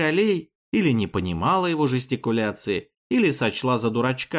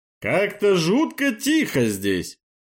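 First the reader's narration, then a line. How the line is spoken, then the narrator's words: Deep bass voice. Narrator (Russian): пробасил он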